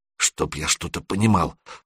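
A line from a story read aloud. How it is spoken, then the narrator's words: Mutter. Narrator (Russian): пробормотал Серега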